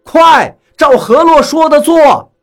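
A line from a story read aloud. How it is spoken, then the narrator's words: Shouting. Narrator (Chinese): 我也喊了一声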